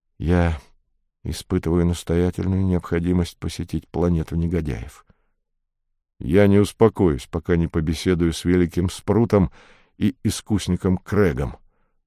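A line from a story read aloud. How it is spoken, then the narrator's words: Through gritted teeth. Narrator (Russian): отозвался сквозь зубы Атос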